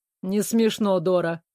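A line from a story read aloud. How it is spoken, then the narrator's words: Snorting, smiling. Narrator (Russian): фыркнул Вэл, улыбаясь вопреки своим словам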